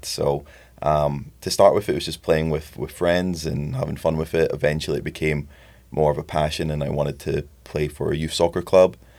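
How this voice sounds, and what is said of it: Faded Scottish accent. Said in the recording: “as you can probably tell with the accent... you don't have that Iowa accent... It has faded a little bit over the years... I'm originally from Edinburgh, Scotland”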